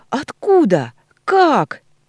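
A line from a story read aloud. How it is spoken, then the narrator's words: Loud shriek. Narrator (Russian): не менее громко визжу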